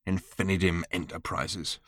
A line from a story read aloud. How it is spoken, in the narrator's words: Ford snarled to himself